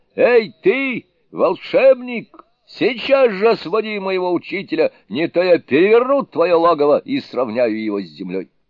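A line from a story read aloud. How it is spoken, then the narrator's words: Loud shout. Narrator (Russian): громко крикнул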